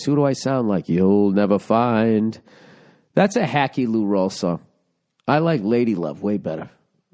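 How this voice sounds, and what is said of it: Raspy voice. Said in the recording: “My raspy voice.”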